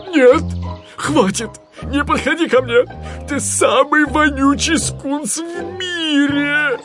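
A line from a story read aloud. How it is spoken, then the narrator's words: Queasy desperate pleading. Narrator (Russian): Его морда приобрела нездоровый зеленоватый оттенок, и он взмолился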